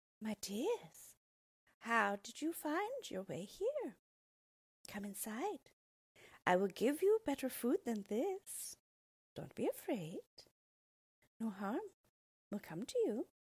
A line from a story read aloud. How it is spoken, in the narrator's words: she smiled at them and said sweetly